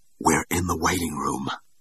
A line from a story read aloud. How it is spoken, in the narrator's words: whispered the girl